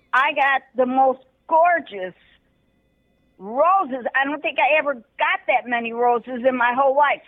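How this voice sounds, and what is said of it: Older woman, Chicago accent. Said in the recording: “She sounds like she's from Chicago, and she grew up in Little Italy.”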